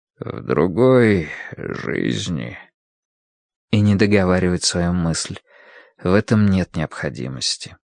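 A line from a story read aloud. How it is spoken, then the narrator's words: Soft. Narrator (Russian): он мягко говорит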